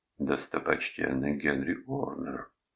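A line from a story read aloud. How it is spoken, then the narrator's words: Mutter. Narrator (Russian): пробормотал он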